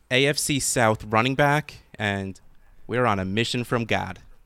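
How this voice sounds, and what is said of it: Slight, unconvincing put-on accent. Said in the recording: “I feel like you did an accent there. ... I tried to go Gad, but it doesn't really work.”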